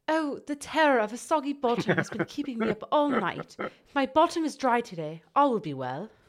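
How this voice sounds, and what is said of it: Put-on English accent. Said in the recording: “That's even harder to do than an English accent.”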